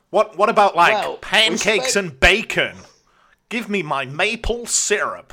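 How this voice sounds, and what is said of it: Put-on American accent. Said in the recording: “my American impersonation”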